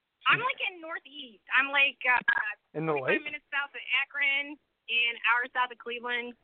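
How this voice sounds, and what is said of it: Buffalo accent, Canadian-sounding. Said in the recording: “That's where you sound like you're from. ... Canada, eh? ... My accent's a Buffalo accent.”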